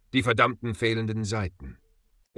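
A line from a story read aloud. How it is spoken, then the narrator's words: Quiet, almost reverent. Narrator (German): sagte leise, fast ehrfürchtig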